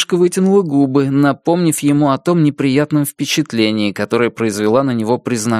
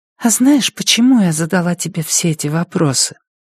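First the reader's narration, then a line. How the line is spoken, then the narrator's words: Barely audible question. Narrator (Russian): еле слышно спросила Вероника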